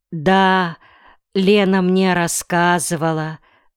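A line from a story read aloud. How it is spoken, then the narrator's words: Sighing. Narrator (Russian): вздохнул Ринтен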